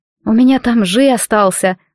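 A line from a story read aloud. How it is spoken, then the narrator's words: Sighing. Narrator (Russian): вздохнула Джиад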